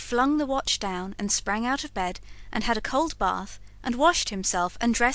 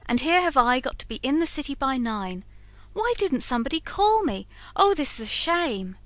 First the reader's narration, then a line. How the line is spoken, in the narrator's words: exclaimed George